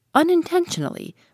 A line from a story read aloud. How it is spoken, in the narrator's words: replied the stranger, raising his voice a little